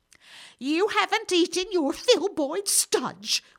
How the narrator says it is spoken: screamed

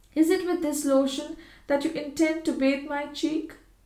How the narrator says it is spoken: asked Georgiana anxiously

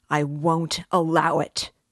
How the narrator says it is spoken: he shouted

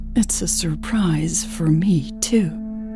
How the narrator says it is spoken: Elle said hoarsely

